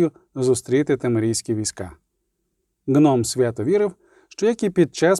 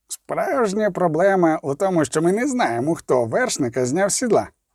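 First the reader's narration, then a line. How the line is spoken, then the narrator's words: Grumble. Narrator (Ukrainian): буркнув Золтан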